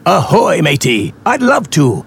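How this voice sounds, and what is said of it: Pirate voice. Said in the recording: “talking like a pirate”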